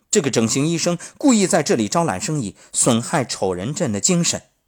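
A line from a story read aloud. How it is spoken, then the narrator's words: Loud, emboldened. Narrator (Chinese): 勇气和胆量不知从哪里窜出来，我大声地向众人说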